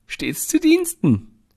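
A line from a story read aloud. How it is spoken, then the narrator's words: Laughing. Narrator (German): lacht er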